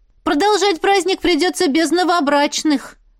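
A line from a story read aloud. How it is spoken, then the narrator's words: Loud. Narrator (Russian): громко сказала Настя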